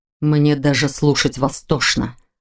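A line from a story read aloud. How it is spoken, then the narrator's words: Angry words through teeth. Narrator (Russian): зло процедил Рен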